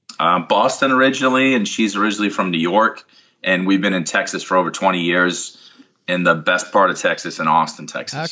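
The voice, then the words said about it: Slight Northeast US accent. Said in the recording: “I detected a little bit of a Northeast accent still”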